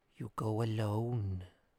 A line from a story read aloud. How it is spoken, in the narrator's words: said the old woman softly